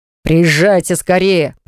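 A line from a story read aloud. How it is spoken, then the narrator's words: Growled. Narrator (Russian): прорычал он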